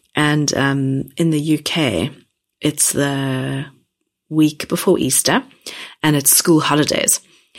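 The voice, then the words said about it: Croaky voice. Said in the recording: “I am still recovering from being unwell, so my voice may sound a bit croaky”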